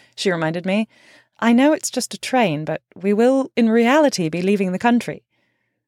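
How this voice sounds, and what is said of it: Usual voice. Nothing is said of it.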